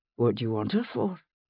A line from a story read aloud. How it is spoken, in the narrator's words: he asked wearily